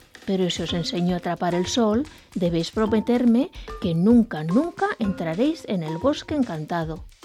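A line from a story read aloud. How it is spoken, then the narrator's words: Plain. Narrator (Spanish): les dijo Jack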